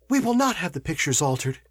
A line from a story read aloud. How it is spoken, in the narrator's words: said she, hastily